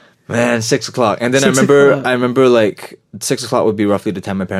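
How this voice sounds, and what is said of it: Usual voice. Nothing is said of it.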